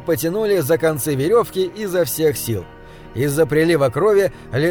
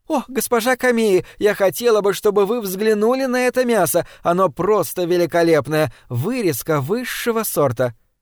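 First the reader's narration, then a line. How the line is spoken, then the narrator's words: Exclaiming. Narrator (Russian): госпожа Катаока воскликнула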